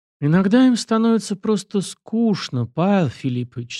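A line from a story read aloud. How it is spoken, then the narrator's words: Calm. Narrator (Russian): спокойно ответил Морозов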